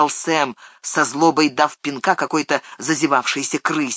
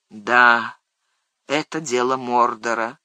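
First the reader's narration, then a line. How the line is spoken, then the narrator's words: Sighing. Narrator (Russian): вздохнул Фродо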